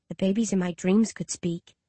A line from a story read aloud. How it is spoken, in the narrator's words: I whisper